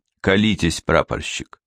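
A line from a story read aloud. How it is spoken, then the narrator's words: Condescending tone. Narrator (Russian): сказал он снисходительным тоном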